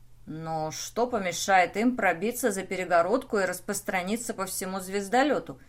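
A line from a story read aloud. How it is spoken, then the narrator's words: Plain question. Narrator (Russian): спросил Рэй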